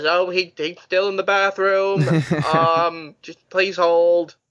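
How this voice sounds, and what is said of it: Bad Caboose impression. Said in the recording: “My horrible Caboose impression.”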